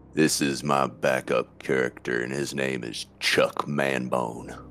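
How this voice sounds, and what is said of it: Performed character voice. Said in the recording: “I'm in character. ... That voice you're hearing there, that is our good friend ... playing Benji Potts.”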